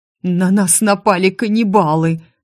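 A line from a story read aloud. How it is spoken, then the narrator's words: Trembling guard's voice. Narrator (Russian): дрожащим голосом сообщил охранник Джузеппе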